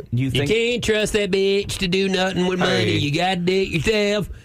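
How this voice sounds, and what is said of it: Exaggerated hick country accent. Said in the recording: “Thank you, hee-haw. ... No need for that accent”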